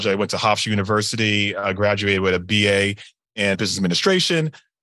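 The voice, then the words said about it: Long Island New York accent. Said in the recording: “raised my formative years on Long Island. So that's this accent you'll hear throughout the podcast.”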